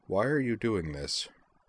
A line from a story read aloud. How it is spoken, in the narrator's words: asked in a quiet voice